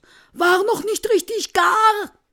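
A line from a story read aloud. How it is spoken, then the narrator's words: Said loudly. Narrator (German): sagt laut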